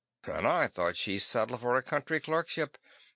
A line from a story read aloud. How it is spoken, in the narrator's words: the captain muttered